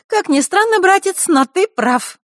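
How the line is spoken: Sudden cheerful snort. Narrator (Russian): вдруг весело фыркнула Захарра

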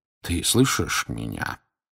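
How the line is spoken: Quiet question. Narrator (Russian): тихо спросил Дамблдор

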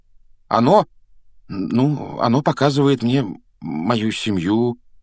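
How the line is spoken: Hesitant. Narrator (Russian): неуверенно начал Гарри

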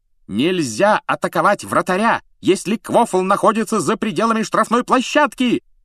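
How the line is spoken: Shrill screaming. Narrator (Russian): пронзительно завопила она

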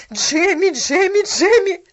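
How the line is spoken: Shouting. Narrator (Russian): закричала она

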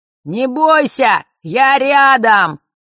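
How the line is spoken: Shouted into ear. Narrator (Russian): прокричал ей в ухо Фэш

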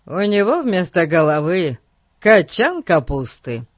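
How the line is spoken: Cheerful explanation. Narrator (Russian): радостно пояснил он

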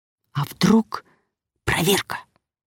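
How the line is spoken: Whisper. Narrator (Russian): прошептал кто-то из посетителей

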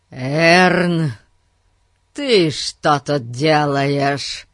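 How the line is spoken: Thunderous bark. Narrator (Russian): Громовым голосом рявкнул мистер Гун

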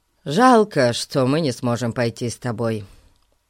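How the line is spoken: Sighing. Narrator (Russian): вздохнул Ларри

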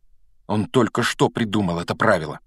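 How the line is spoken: Angry mutter. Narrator (Russian): сердито пробормотал Гарри

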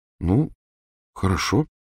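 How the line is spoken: Uncertain agreement. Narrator (Russian): неуверенно согласилась Гермиона

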